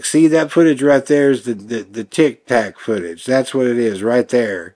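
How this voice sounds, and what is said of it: Rough Southern accent imitating Burchett. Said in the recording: “sorry if that's a shitty, like, Southern accent. I'm trying to do my best. But it's like, no, that's not right, Mr. Burchett.”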